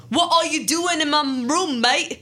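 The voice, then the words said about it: Weird put-on British accent. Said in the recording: “He asked in a weird British accent ... Is that supposed to be British?”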